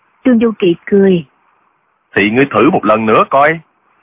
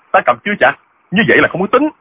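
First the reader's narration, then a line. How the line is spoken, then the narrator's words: Shocked and angry. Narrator (Vietnamese): Diệu Phong Sứ cả kinh, y giận dữ nói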